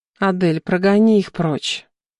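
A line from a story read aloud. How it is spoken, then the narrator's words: Moaning. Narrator (Russian): Простонала я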